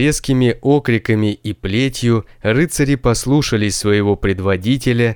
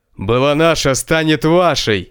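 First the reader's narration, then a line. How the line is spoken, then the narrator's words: Furious roar. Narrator (Russian): В бешенстве взревел хозяин замка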